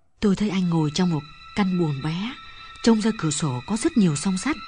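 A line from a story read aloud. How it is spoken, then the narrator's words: Lowered voice, near whisper. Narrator (Vietnamese): Linh hạ giọng nhỏ xuống một chút và nói như thì thầm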